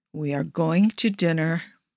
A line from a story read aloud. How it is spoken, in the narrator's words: Primo murmurs, just a breath away from Rico